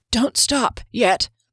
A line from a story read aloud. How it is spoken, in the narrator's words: Kier panted through the searing pain in her back